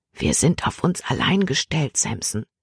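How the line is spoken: Whispered into ear. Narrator (German): flüsterte sie ihm ins Ohr

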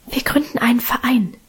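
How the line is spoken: Whispering. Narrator (German): flüsterte Minchen

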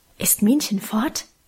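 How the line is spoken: Mysterious low murmur. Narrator (German): raunte sie geheimnisvoll

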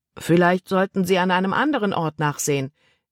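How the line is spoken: Called down. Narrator (German): rief er hinunter

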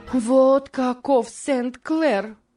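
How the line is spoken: Angry desperate exclamation. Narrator (Russian): воскликнула Морис, как только исчез виновник ее гнева

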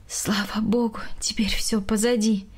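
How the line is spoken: Sighing. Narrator (Russian): вздохнула Галина Яковлевна

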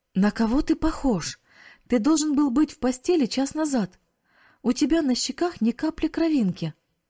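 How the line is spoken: Exclaiming. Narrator (Russian): воскликнула тетя

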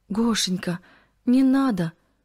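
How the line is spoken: Pleading. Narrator (Russian): взмолилась Кристина

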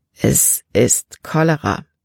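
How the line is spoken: Rough, hoarse voice. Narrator (German): sagte er mit rauer Stimme

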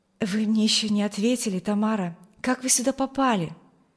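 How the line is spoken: Young man pleading. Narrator (Russian): Умоляющим тоном спросил ее юноша

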